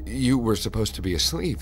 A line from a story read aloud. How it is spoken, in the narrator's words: she said nervously